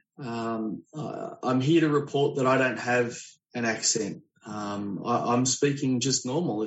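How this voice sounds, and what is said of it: Australian accent. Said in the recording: “I really like this guy's accent ... Zooming to you from tomorrow ... other people in Sydney”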